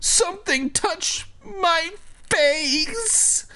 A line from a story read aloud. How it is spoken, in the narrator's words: he wailed